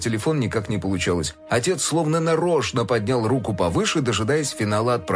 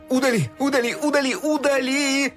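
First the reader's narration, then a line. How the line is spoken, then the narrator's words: Shouting. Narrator (Russian): кричал Фил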